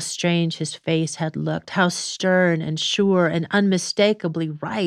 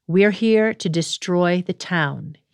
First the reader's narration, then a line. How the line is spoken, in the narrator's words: said